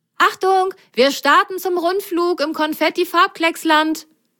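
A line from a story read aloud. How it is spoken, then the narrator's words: Calling over shoulder. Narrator (German): rief Grasgrün über die Schulter seinen Passagieren zu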